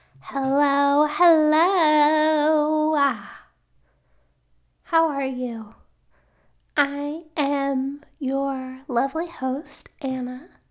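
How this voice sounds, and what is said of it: Weird-sounding voice, struggling to talk. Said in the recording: “I'm getting over a cold, which you can probably hear in my voice a little bit. I probably sound pretty weird ... I can barely talk”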